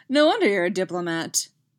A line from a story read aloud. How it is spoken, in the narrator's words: Cody says with a short laugh